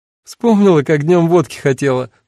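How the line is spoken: Laughing explanation. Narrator (Russian): сквозь смех объяснила Эва

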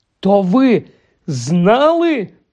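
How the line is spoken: Exclaimed. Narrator (Ukrainian): вигукнув Гаррі

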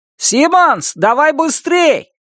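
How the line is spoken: Shouting. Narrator (Russian): крикнул Норми

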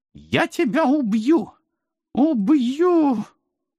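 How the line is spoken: Near sobbing, muffled, desperate. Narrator (Russian): Уже почти всхлипывала тонущая в сене мадмуазель Зайцева

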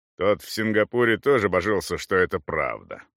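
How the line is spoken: Swede grumbling. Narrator (Russian): проворчал швед

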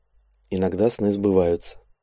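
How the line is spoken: Very quiet. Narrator (Russian): совсем уже тихо произнесла Мисс

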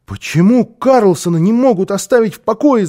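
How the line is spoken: Shouting. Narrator (Russian): закричал он

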